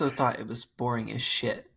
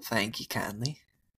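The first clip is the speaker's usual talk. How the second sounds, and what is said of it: Put-on country accent. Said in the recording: “a country accent fella. ... Just like this.”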